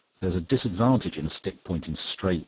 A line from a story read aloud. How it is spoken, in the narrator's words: answered the other